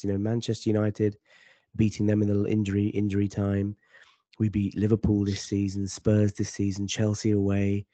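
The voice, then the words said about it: Hoarse, deep, strained voice. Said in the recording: “I've lost my voice, ... I seem a little bit deep today”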